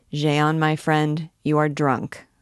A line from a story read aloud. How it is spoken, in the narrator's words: said the other